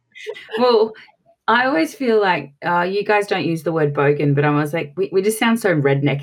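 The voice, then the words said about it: Strong Australian accent. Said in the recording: “as you can tell from my piercing accent, I'm from Australia”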